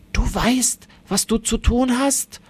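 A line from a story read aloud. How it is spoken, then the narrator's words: Grandfather whispering. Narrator (German): flüstert der Großvater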